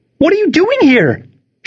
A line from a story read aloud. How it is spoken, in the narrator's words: she shrieked